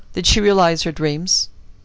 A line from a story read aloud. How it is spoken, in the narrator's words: The laugh that prefaced Balderson's reply was like the echo of a chuckle in a vaulted tomb